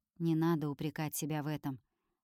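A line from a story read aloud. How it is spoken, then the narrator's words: Quiet young man. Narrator (Russian): тихо говорит юноша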